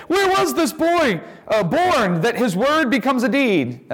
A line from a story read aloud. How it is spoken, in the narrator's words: the people, seeing that he was dead, cried out and said